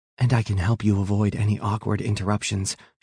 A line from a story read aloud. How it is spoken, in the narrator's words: whispers